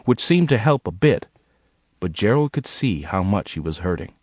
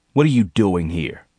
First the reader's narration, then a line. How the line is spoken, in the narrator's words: he growled